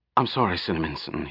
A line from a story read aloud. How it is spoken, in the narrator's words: he said quickly